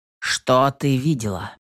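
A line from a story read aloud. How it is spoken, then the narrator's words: Stern question. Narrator (Russian): строго спросил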